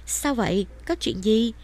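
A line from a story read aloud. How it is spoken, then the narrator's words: Trembling anxious question. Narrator (Vietnamese): trái tim Minh Dạ rối thành một đoàn, thanh âm run rẩy hỏi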